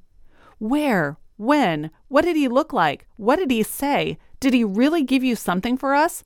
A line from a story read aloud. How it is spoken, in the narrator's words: Mary and Laura cried